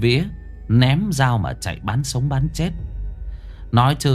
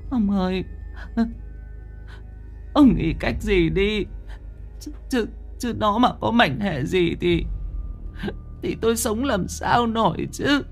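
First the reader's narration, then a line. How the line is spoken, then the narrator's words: Tearful, on the verge of crying. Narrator (Vietnamese): Bà Hoài mếu máo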